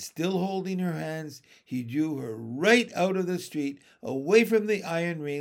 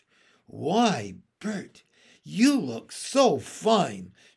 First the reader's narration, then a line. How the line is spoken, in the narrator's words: cried in an admiring voice